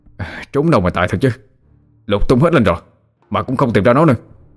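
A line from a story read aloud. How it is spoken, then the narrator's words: Sulky, resentful. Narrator (Vietnamese): hậm hực nói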